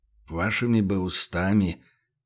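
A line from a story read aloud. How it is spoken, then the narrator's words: Muttering. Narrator (Russian): пробормотал Кубович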